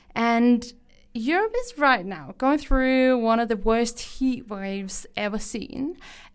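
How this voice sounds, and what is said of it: Danish accent in English. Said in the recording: “probably also what you can hear on my accent. I am from Denmark”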